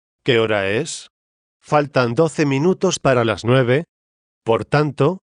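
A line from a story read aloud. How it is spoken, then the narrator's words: Plain. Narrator (Spanish): dijo él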